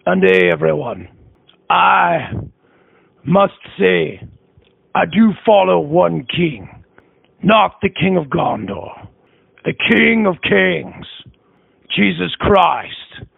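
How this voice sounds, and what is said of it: Dwarf character with heavy Scottish accent. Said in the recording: “I know I have a bit much of a Scottish accent, but it's the new Gimli.”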